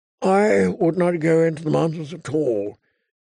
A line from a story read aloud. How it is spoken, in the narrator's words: he said in a thin, tired voice